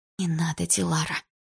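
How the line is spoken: Whisper. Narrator (Russian): прошептала я

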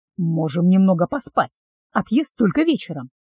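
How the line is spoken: Whisper. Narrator (Russian): шепнул Вайнор

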